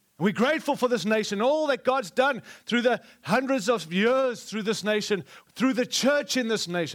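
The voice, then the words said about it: Speaks with a noticeable accent. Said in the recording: “I have an accent.”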